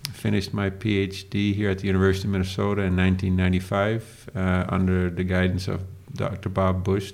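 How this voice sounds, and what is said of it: Dutch accent. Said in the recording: “for those of you that never heard my accent, not everybody talks like this in Northwest Minnesota”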